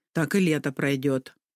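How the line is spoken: Grumbling. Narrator (Russian): проворчала Магда

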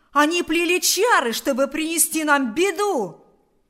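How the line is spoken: Shouting. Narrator (Russian): закричал Кузька

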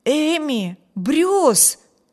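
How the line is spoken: Astonished exclamation. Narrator (Russian): воскликнул изумленный Виберт

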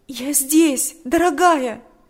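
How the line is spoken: Tearful exclamation. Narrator (Russian): воскликнула сквозь слезы Татьяна

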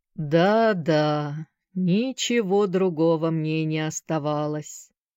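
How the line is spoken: Slow, absent-minded, thoughtful. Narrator (Russian): произнес мистер Шафта так медленно и задумчиво, словно бы он совершенно позабыл, что разговаривает с Сэнди

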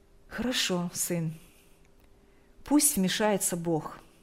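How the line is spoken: Calm. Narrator (Russian): спокойно произнесла мать

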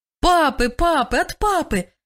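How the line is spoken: Children shouting over each other. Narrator (Russian): кричали наперебой дети

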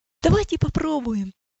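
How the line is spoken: Fervent exclamation. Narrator (Russian): с жаром воскликнул Иосиф

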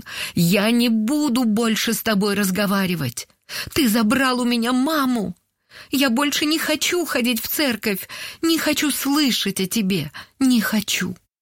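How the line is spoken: Tearful grieving shout. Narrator (Russian): Сквозь слезы она прокричала в пасмурное небо после похорон

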